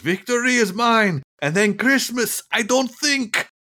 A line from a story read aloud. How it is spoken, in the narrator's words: he yells